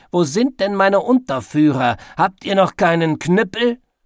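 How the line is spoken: Shouting. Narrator (German): schrie Oberleutnant Gnade in die Gegend

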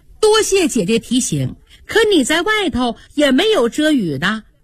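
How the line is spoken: Smiling. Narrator (Chinese): 那个女孩笑着说

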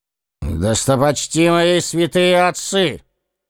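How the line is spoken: Loud, commanding emperor. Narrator (Russian): начал император громким, почти командным голосом

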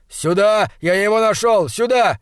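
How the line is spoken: Shouted. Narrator (Russian): крикнул

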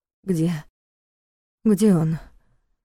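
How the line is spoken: Suddenly hoarse question. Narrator (Russian): вмиг охрипшим голосом спросила она

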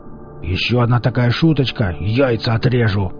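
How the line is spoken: Growling. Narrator (Russian): зарычал Велес

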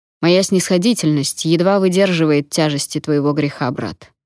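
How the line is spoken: Plain. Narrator (Russian): сказал Обен Патре

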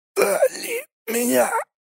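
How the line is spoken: Whisper. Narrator (Russian): прошептал Иннокентий

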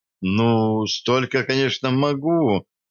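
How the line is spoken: Uncertain. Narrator (Russian): неуверенно сказала Наташа

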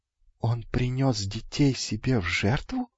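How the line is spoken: Quiet sly question. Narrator (Russian): тихо спросил лукавый

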